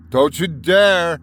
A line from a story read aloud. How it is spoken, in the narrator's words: shouted at them